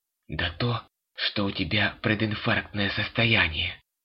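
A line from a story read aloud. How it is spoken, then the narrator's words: Hissing at her. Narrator (Russian): зашипел на нее муж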